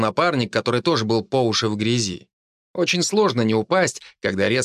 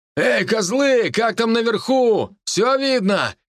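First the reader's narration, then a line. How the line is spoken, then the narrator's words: Man shouting upward. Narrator (Russian): крикнул мужчина кому-то на дозорной башне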